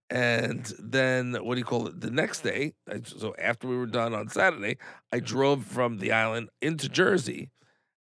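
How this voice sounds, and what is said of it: Hoarse, strained voice. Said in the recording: “my voice is completely gone, because I was having to speak over the freaking DJ ... totally, totally screwed my voice up”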